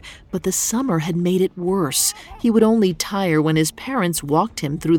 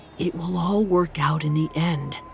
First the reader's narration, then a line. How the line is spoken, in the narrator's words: Árni muttered, trying to remind himself that this sort of optimism was part of being an Icelander